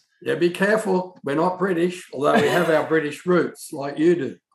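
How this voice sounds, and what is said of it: Australian accent, almost British-sounding. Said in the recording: “He's an Aussie. He's got that really cool accent. ... that accent, it automatically sounds, it's almost British.”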